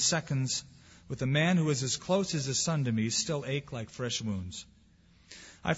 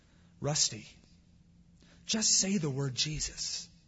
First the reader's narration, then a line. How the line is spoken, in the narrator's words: I pleaded with him